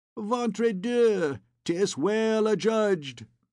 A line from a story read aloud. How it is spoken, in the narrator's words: cried the little scholar, Jehan Frollo de Moulin, from his corner